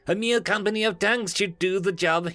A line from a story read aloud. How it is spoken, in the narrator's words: he sneered